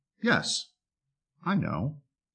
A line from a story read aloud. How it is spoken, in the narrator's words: The sheep calmly and peacefully retorted